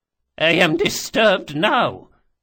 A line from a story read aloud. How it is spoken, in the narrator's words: she spat